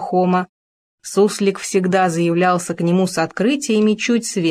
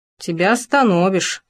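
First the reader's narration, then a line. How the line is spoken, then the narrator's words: Snorting. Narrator (Russian): хмыкнул Хома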